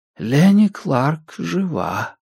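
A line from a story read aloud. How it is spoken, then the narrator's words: Whisper in the ear. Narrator (Russian): прошептал голос в ухе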